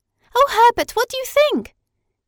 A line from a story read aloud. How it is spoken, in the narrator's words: cried Madeline when she saw her brother